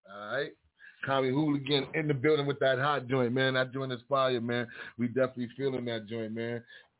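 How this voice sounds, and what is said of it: Harlem accent. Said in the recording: “my Harlem accent.”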